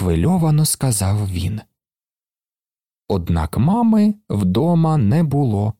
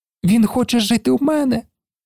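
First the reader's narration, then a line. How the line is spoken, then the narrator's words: Boy's exclamation. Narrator (Ukrainian): вигукнув хлопець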